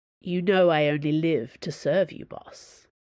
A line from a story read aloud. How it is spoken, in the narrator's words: said Athos, in a deep, respectful voice